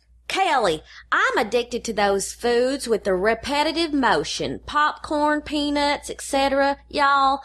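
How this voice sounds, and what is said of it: Good Southern redneck accent. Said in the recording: “a redneck accent ... nailed”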